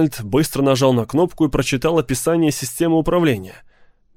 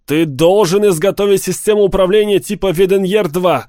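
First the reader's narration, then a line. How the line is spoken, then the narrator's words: Shouting. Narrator (Russian): закричал Арнольд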